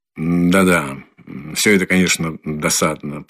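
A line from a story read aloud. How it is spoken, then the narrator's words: Distracted absent mutter. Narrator (Russian): пробормотал в ответ Раскольников, но с таким рассеянным и почти невнимательным видом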